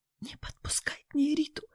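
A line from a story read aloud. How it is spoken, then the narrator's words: Near whisper. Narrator (Russian): почти зашептала Нина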